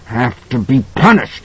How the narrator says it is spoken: he was grunting

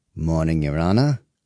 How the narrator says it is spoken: snarled, upset that he had been called away from family on a Sunday

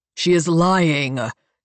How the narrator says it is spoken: North growls

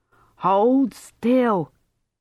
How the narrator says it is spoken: shouted

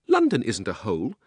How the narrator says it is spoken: said Polly indignantly

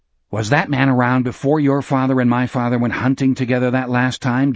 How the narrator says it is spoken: Jack asked fiercely

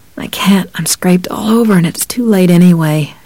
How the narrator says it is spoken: moaned

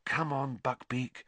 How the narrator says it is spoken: Harry murmured

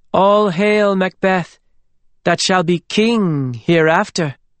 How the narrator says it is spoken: Philippa said in a clear, ringing voice

